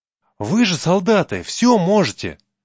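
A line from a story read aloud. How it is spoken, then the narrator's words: Boy exclaiming. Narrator (Russian): воскликнул мальчик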